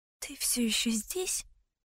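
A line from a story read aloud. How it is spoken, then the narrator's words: Quiet whisper. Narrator (Russian): прошептала я тихо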